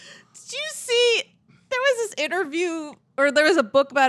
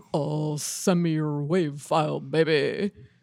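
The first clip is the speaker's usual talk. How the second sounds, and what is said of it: Elvis-like impression of another person. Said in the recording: “That's your Brett impression. It's like, that is definitely Elvis.”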